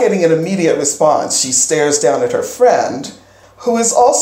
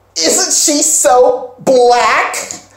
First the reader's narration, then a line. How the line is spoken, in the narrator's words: One girl, who is white, says real loudly